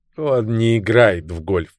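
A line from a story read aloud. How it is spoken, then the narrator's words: Contemptuous snorting mutter. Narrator (Russian): презрительно фыркнув, буркнул майор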